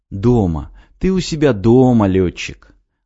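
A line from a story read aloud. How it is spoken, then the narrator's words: Gentle, soothing. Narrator (Russian): Ласково и успокаивающе, как ребенку, очнувшемуся от ночного кошмара, сказал Ян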